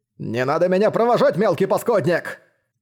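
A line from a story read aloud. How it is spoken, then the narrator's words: Trembling old man's roar. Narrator (Russian): проревел в ответ дрожащий патриарх-покровитель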